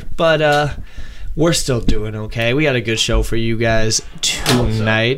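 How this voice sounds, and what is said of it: Soothing radio announcer voice. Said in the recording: “my soothing radio voice”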